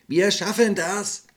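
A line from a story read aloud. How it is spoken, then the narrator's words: Man shouting. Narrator (German): rief er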